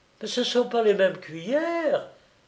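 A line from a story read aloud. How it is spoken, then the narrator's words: Exclaimed. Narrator (French): s'écria Émilie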